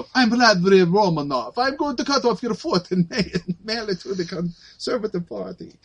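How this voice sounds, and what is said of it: Badly done put-on foreign accent. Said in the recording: “You kept that accent out even as you fucking butchered it.”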